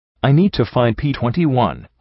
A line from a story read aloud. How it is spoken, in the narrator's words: I said sharply